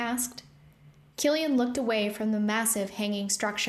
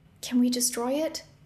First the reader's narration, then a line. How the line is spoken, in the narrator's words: Rune whispered